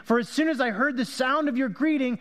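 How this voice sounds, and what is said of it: Yelling loudly. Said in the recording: “I'm yelling because it says she exclaimed”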